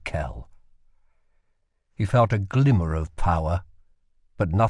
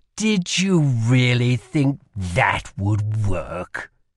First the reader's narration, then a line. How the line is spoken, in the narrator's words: sneered the magic in Kell's shape